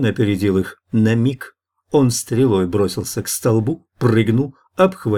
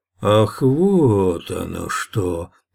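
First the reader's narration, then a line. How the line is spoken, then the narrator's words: Drawn-out drawl. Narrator (Russian): протянул Гмых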